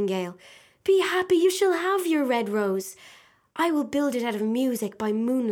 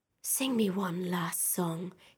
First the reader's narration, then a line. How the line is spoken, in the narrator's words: he whispered